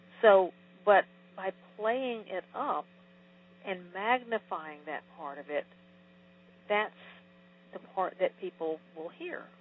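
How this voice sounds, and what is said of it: Southern US accent. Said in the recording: “I could disguise my Southerness, I guess. I don't think I can get rid of my accent”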